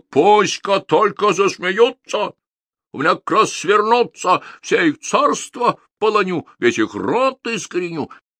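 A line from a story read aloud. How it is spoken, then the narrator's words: Angry shout, tsar. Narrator (Russian): Царь со гневом закричал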